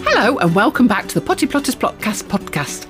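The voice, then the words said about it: Very fast speech. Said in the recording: “I said that really quickly”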